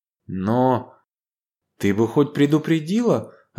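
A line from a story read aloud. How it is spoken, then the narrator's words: Bewildered. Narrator (Russian): растерянно произнесла Ева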